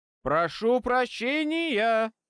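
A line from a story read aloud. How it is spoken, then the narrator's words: Very loud bark. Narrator (Russian): Гаркнул я как мог громче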